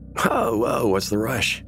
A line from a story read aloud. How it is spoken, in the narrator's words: he laughed, hungover